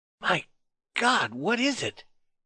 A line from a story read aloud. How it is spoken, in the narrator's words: he whispered to Malamute Kid